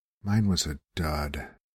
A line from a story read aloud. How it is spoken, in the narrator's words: said quietly